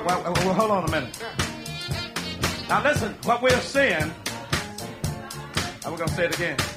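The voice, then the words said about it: Mississippi Southern accent. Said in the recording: “I don't think they can understand what I'm saying because of this Mississippi accent I got”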